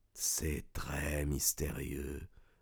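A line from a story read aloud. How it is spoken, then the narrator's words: Suspicious murmur. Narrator (French): murmura-t-il, tandis que dans ses yeux noirs s'allumait une rapide flamme de soupçon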